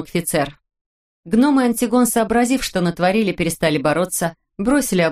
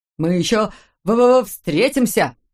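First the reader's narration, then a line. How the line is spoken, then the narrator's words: Hissing. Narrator (Russian): прошипел Макфицер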